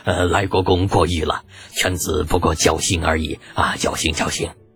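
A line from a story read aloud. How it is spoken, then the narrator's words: Beaming, laughing reply. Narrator (Chinese): 李靖同志 笑得见牙不见眼 回道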